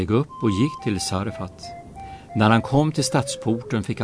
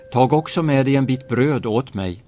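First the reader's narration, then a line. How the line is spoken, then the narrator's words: Calling after someone. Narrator (Swedish): ropade han efter henne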